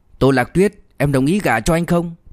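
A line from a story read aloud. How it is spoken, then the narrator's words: Loud, suppressed displeasure. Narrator (Vietnamese): anh ta nén nhịn sự không hài lòng vào trong, lại lớn tiếng nói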